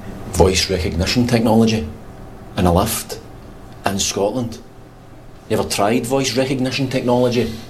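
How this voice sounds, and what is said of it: Scottish accent. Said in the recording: “They don't do Scottish accents.”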